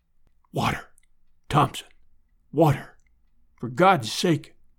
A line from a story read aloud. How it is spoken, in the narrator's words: whispered